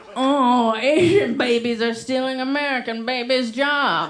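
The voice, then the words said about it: Imitates a Republican vegan. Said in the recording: “That's my impression of a Republican vegan.”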